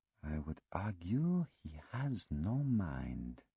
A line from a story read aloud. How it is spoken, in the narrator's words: Poirot murmured